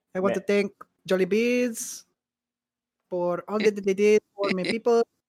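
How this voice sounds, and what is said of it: Put-on accent. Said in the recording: “The accent is just out of love and adoration ... The accent comes as a result of the love”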